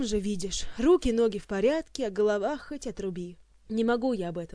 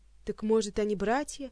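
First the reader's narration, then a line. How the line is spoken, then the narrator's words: Grim smirk. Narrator (Russian): мрачно ухмыльнулся Кантер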